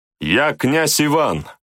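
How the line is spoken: Shouted through cupped hands. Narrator (Russian): крикнул воин, сложив руки рупором

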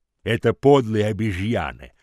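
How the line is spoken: Growled. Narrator (Russian): прорычал Хамфри

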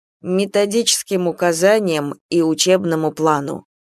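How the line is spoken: Gentle remark. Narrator (Russian): мягко заметил Василий Иванович

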